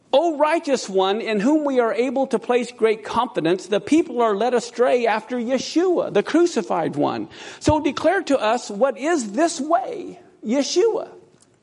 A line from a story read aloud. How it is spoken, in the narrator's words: they shouted to him from below